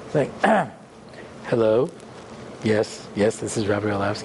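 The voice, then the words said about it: Put-on rabbi character voice. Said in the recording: “put on my rabbi voice.”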